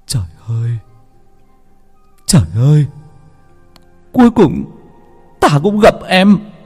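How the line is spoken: Beggar weeping. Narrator (Vietnamese): Người ăn mày cũng khóc lóc

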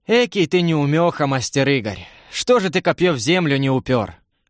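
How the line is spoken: Gentle question. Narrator (Russian): мягко спросил Семен

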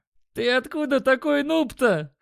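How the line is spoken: Guffawing. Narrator (Russian): хохотал Димон

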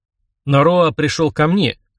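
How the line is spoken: Icy voice. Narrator (Russian): ледяным голосом произнес я

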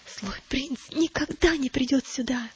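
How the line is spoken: Whisper. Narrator (Russian): прошептал

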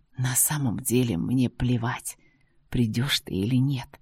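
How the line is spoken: Whisper. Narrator (Russian): прошептал он

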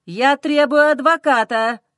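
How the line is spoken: Snapping back. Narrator (Russian): огрызается муж

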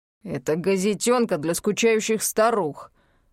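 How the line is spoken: Sudden growl. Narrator (Russian): неожиданно рыкнул Иртон

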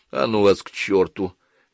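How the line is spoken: Good-natured grumble. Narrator (Russian): беззлобно буркнул Сандерс

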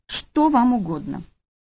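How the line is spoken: Whisper holding back sobs. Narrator (Russian): Еле сдерживая рыдания, прошептала

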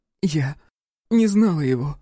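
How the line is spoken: Sobbing. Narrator (Russian): всхлипнула Амелия

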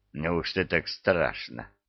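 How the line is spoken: Smirking hmph. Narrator (Russian): хмыкнул Люцифер

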